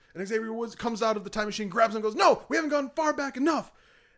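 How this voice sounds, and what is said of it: Usual voice. Nothing is said of it.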